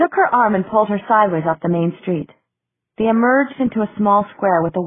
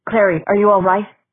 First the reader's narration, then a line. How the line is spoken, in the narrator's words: His voice sounded thick, strange